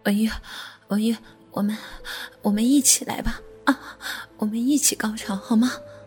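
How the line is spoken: Panting. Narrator (Chinese): 国华喘道

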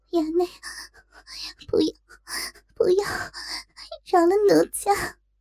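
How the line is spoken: Tearful pleading. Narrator (Chinese): 若真周身触电般酸痒难当，哭嗔道

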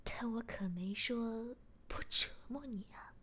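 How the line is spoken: Relieved, smiling. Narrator (Chinese): 松了口气，我笑了笑，便说

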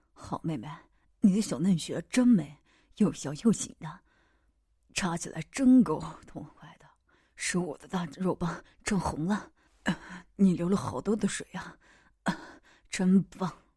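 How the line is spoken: Pleased, hushed voice. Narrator (Chinese): 痛快的压低声音说

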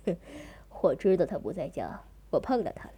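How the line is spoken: Snickering laugh. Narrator (Chinese): 高毅嘿嘿的笑道

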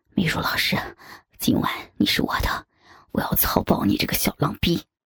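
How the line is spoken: Soft whisper. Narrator (Chinese): 我的同事轻声的跟我讲

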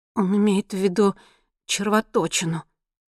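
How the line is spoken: Trembling. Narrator (Russian): ответила Монти дрожащим голосом

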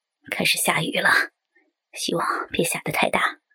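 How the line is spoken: Muttering. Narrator (Chinese): 嘟囔了一句

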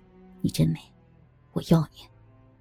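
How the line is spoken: Tender. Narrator (Chinese): 张新明温柔的对她说了一声

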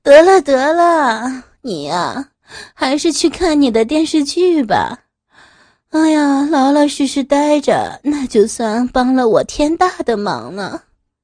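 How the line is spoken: Laughing. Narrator (Chinese): 妻子笑着说

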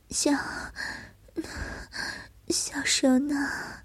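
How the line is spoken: Soft low laugh. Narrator (Chinese): 小蛇低低一笑

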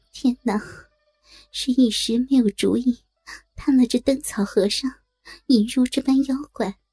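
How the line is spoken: Sighing. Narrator (Chinese): 对着灯叹口气道

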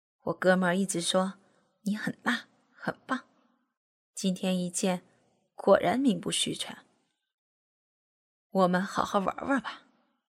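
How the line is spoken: Grinning. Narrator (Chinese): 阿强边笑嘻嘻的说着

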